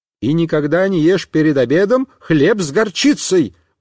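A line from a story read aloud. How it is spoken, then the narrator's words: Mother exclaiming. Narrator (Russian): воскликнула мама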